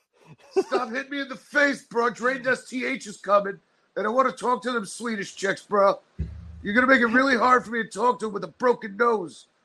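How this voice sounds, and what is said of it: Put-on California surfer accent. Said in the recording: “my California accent, bro”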